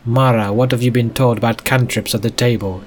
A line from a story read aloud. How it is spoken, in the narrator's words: snapped